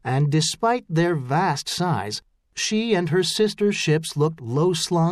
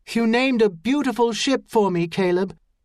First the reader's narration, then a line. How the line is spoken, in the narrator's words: she said in his ear, speaking loudly as the seamen manning Empress of Caris's yards began cheering